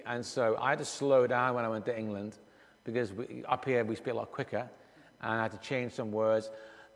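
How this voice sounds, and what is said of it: Mixed Scottish, Irish, Liverpudlian accent. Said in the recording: “my accent is as it is. And so it's a little bit of a mixture, and at times you'll hear a bit of Liverpudlian ... and a bit of Scottish and a little bit of Irish”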